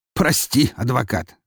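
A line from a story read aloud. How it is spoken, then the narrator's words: Snorting. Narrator (Russian): хмыкнул он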